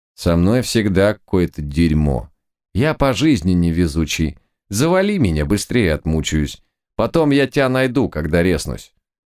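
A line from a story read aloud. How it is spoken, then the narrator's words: Gloomy. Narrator (Russian): Клоун ответил мрачно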